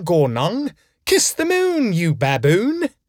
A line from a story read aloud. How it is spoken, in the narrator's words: He screeched